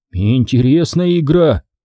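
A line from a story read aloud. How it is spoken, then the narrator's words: Grim snort. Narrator (Russian): мрачно хмыкнул Зак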